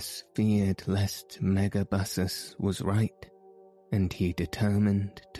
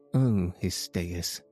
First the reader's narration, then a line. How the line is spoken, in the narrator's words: said the king